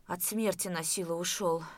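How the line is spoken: Exhaled, breathless. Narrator (Russian): выдохнул

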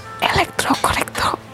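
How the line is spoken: Whispering. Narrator (Indonesian): Purdi berbisik

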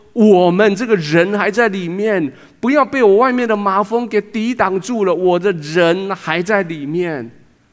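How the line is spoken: Crying out from the heart. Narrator (Chinese): 那个宝贝的人，在遇到可以帮助他们的神的时候，他的心里面呼喊出来说

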